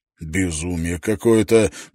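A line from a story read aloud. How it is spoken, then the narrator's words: Muttered. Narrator (Russian): пробормотал Шеннон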